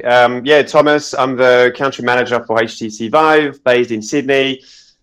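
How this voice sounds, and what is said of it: Unusual mixed Australian accent. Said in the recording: “You've got the weirdest Australian accent I've ever heard. ... Is it French? Is it South African? Is it German? Is it Aussie?”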